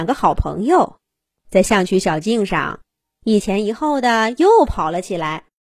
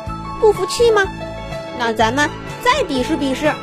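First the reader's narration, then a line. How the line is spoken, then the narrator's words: Cheerful, smiling. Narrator (Chinese): 森吉依旧笑眯眯地说道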